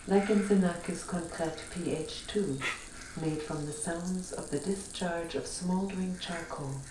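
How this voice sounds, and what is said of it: Slight foreign accent. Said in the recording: “her slight accent, it like makes me... Think of Werner Herzog somehow.”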